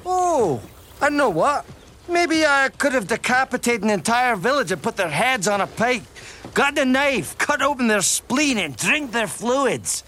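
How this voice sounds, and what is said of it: Shrek's Scottish ogre voice. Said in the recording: “Mike Myers playing an ogre with a Scottish accent”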